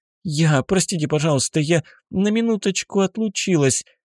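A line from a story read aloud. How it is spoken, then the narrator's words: Babbling. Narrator (Russian): залепетала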